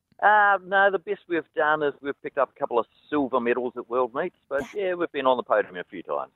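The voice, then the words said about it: New Zealand accent. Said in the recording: “I spot a Kiwi accent in there, mate.”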